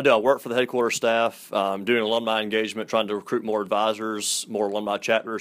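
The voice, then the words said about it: Southern American accent. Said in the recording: “I can hear it in your voice. I love the Southern accent.”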